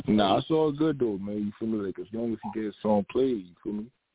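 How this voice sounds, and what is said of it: Slight New York Brooklyn accent. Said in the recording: “You from NY? ... Yeah, from Brooklyn, Canarsie. ... Could tell by the accent a little bit.”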